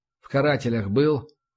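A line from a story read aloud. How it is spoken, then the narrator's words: Sighing, reluctant admission. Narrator (Russian): вздохнув, решился таки Самойлов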